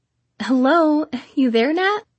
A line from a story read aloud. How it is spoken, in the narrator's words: She laughed